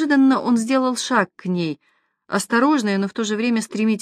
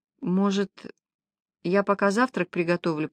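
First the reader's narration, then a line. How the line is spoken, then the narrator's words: Quiet suggestion. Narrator (Russian): предложила она тихо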